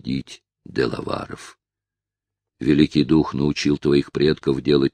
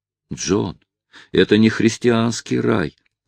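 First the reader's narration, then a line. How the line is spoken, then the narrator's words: Exclamation. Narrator (Russian): воскликнула мисс Темпл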